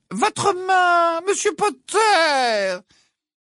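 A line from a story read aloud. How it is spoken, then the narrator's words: Singsong interruption. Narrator (French): l'interrompit le professeur Ombrage d'une voix chantante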